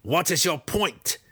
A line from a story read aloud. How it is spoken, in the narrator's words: Breeza asked sharply